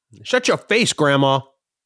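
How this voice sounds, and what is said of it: Yelling. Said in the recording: “I'm yelling at someone's grandmother”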